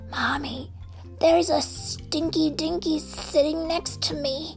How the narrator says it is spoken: Bart whispered in his mother's ear

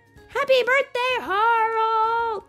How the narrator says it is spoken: Everyone shouted

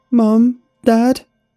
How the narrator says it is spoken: shouted

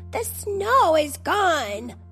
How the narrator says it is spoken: exclaimed

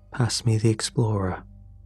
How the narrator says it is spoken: said quietly

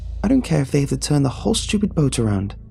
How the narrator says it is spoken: kept exclaiming

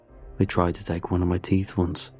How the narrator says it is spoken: he says quietly

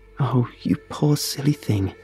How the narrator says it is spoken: she cooed

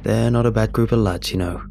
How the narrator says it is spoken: chuckles

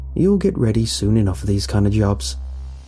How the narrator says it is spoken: chuckled

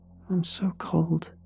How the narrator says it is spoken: whimpered

